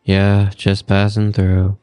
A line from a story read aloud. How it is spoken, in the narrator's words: Paul replied flatly